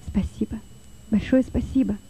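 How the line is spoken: Whisper. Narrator (Russian): прошептал Лёва

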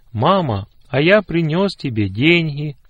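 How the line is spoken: Joyful announcement. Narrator (Russian): радостно сообщил

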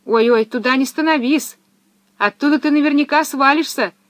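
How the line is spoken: Sudden shout. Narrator (Russian): вдруг крикнула ему Пеппи

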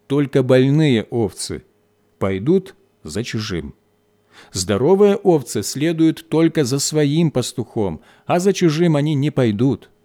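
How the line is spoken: Plain. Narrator (Russian): ответил пастух

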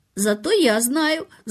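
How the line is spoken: Quiet laugh, young boy. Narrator (Russian): засмеялся тихонько мальчик

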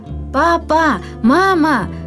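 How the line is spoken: Joyful female cry. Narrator (Russian): радостно выкрикнула она

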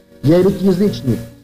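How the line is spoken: Plain. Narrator (Russian): сказал он угоднику

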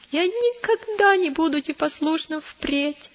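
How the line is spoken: Sobbing child. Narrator (Russian): прорыдал маленький христианин

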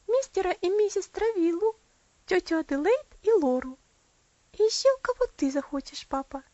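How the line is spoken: Joyful answer. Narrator (Russian): ответила она радостно

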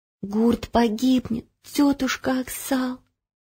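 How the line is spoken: Whisper. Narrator (Russian): прошептала Ело

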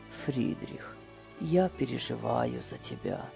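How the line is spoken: Quiet. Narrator (Russian): тихо сказал

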